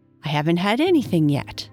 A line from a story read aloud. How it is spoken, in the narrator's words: Alice replied in an offended tone